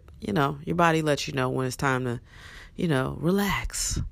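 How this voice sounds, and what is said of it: Deep, cold-affected voice. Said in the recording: “The bass in my voice is back ... I was fighting a cold”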